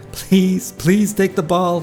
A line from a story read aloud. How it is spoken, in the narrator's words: begged